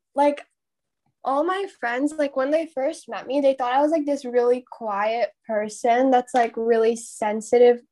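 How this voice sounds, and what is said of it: Indian accent. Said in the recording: “my Indian accent sometimes”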